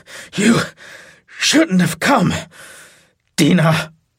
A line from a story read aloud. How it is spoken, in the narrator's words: he said in a gravel voice